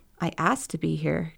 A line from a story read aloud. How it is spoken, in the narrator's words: Keone replied calmly